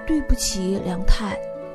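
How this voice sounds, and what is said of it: Quiet, soft-spoken line. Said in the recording (Chinese): “小声”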